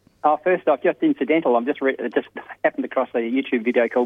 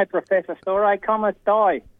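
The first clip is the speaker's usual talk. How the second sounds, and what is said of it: Poor put-on Italian accent, Australian-tinged. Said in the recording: “What a bloody Italian. ... He doesn't even get his Italian right. ... With an Australian accent.”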